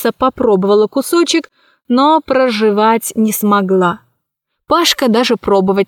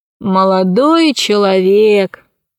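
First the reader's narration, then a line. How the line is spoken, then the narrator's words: Tired voice. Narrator (Russian): ответил Посейдон усталым голосом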